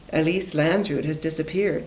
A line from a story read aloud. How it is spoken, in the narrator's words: said the bookkeeper